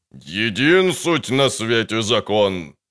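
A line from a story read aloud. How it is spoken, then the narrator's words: Fat priest growling. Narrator (Russian): рычал толстый жрец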